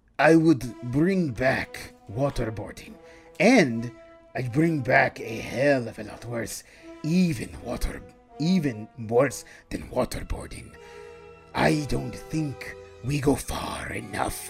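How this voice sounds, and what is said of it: Red Skull supervillain character voice. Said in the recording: “read it in your supervillain voice ... I'm going to read it like Red Skull”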